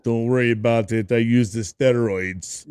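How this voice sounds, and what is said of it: Poor Schwarzenegger accent impression. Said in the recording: “Schwarzenegger ... I, am not a good accent person, man. I I destroy everybody's accents real quick.”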